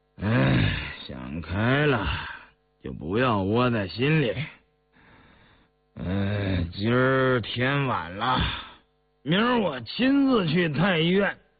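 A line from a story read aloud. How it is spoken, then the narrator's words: Quiet sigh. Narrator (Chinese): 印祥默然，叹了口气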